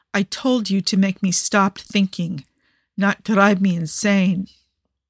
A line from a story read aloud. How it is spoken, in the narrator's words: Nikki groans